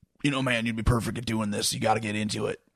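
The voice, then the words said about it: Imitates another person's voice. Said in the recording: “Worst Steve Austin imitation ever.”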